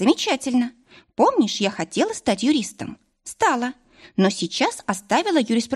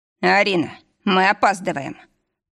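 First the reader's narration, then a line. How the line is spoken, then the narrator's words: Booming boss voice. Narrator (Russian): прогремел голос босса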